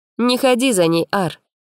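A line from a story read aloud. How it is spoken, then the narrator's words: Stern. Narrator (Russian): сказала она строго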